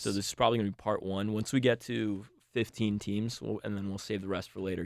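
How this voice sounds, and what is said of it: Slightly strained, fading voice. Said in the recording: “I'm losing my voice a little bit”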